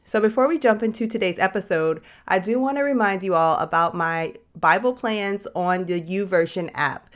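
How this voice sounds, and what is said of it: Cracking, congested-sounding voice. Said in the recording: “my voice cracking, if I don't sound normal ... I am struggling with some sinus and allergy issues right now.”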